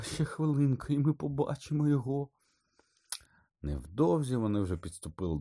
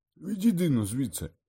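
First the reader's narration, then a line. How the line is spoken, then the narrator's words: Barked. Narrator (Ukrainian): Гаркнув він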